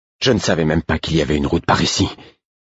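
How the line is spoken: Breathless apologetic while running. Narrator (French): dis-je en guise d'excuse d'une voix haletante à œil de nuit alors que nous dévalions le versant

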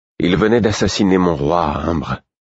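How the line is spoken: Icy tone. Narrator (French): répliquai-je d'un ton glacé

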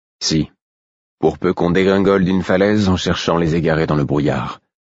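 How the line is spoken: Cold reply. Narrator (French): répondis-je d'un ton froid

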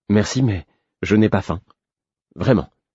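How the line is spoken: Stammered. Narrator (French): bredouillai-je

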